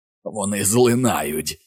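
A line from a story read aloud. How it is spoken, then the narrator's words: Growling. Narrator (Ukrainian): гарчало воно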